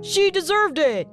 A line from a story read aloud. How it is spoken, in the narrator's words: shouted someone from the crowd